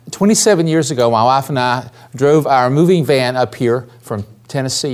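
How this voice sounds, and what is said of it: Southern American accent. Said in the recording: “I never lost my Southern accent.”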